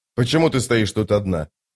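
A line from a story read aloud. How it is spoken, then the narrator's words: Whisper. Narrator (Russian): прошептала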